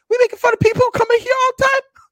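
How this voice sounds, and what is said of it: High-pitched lisping imitation of another person. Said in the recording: “Perfect Mike Tyson impersonation ... we both have a speech impediment ... doing the lisp ... you just got to squeak it up a little bit”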